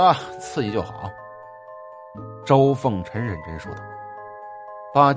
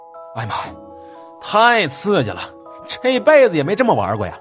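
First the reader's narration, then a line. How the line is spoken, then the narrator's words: Breathless panting. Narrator (Chinese): 江浩大喘气儿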